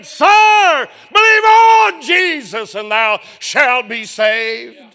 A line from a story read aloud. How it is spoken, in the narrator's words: cried out and said